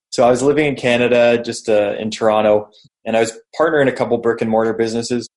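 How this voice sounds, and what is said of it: Canadian accent. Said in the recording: “I'm Canadian. People probably noticed by the accent.”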